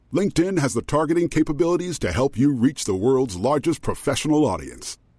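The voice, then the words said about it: Very deep voice. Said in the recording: “As a person with a very deep voice”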